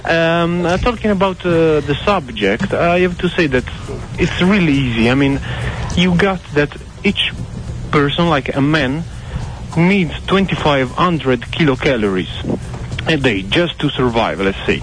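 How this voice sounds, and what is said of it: Italian accent. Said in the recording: “This is a hell of a good accent ... You can hear it, I guess ... Actually, I'm Italian”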